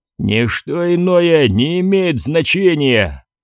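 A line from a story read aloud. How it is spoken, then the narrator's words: Growling. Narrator (Russian): прорычал он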